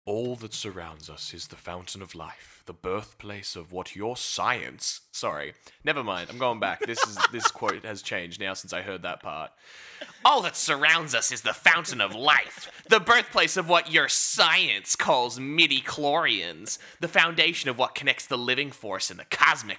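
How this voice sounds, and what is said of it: Wise teacher voice. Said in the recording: “wisest voice ... Like you're teaching a class of Jedi Padawans.”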